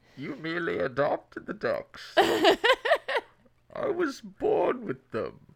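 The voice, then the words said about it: Bane movie villain voice impression. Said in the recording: “It's a pretty good Bane. It was a pretty good Bane ... It's just a Sean Connery, but in a plastic cup ... that was pretty good”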